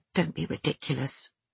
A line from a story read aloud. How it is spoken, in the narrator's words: I muttered